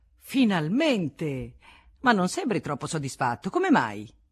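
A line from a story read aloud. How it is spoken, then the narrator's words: Exclaimed. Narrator (Italian): Delorier, che esclamò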